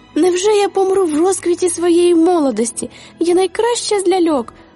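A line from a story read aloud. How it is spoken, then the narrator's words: Exclamation. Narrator (Ukrainian): вигукнула Клерхен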